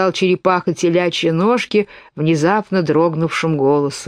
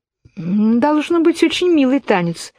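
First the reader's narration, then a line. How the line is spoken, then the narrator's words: Timid. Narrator (Russian): робко сказала Алиса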